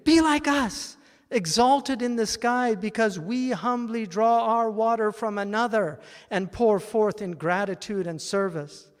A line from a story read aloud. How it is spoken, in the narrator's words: The clouds pleaded